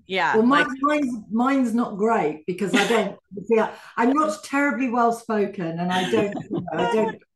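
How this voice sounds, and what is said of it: Slight London accent. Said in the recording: “it's a bit London, my accent”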